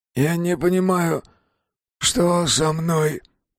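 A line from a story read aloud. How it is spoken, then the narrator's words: Moaning. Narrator (Russian): простонал он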